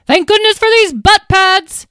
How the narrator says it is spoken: She yelled

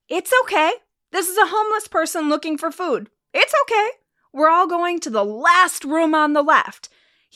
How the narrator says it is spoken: he starts shouting

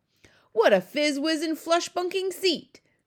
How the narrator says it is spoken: cried the BFG

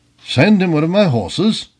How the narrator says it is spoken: cried the old renegade, his eyes sparkling with pleasure

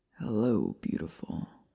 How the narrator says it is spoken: he rasped

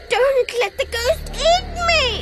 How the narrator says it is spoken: he sobbed

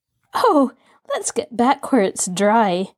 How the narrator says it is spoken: Nancy laughed

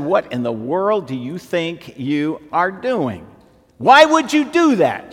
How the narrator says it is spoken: she said

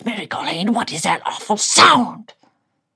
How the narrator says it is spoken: The creature hissed

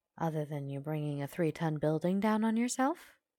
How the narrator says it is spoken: the doctor asks dryly

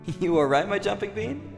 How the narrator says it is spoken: I laughed at her enthusiasm

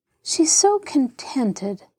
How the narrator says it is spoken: sighed Mary

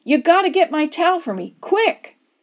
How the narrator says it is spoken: Dave yelled

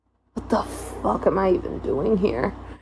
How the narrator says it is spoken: I whispered into the air

